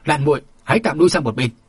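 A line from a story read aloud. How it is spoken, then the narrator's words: Yelling, barked command. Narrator (Vietnamese): chàng rú lên một tiếng quát bảo Phong Lạn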